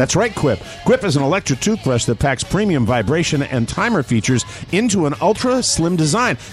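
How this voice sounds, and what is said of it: Usual voice. Nothing is said of it.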